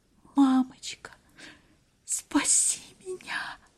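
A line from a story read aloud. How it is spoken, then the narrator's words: Heavy sigh, plaintive whisper. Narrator (Russian): Глаша закрыла глаза, тяжело вздохнула и прошептала жалобно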